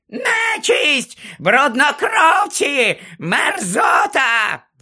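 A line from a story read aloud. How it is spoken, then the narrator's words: Shrieking. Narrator (Ukrainian): верещала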